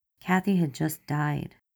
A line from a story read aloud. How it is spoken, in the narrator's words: he says, very slowly, like he's trying not to get mad, but he wants to